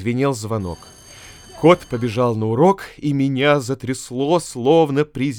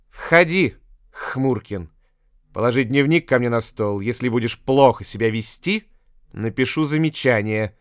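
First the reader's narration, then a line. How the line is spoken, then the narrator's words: Rude teacher's reply. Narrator (Russian): грубо ответила учительница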